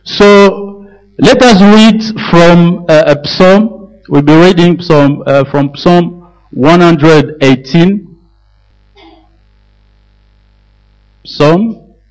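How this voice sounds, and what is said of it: French accent. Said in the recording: “very sorry for my accent, French.”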